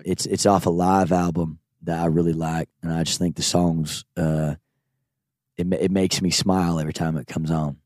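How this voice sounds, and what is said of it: Good put-on Southern accent, lower voice. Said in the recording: “that's a really good Southern accent. ... whenever I do it, I have to go a little bit low.”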